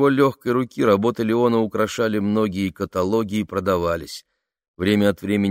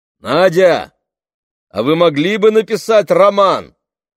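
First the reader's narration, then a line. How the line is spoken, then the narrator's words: Called to another room. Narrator (Russian): крикнул в сторону прихожей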